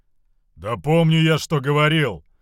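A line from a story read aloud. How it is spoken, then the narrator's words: Loud booming bass. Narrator (Russian): пробасил дезертир перепугав слуг даже на втором этаже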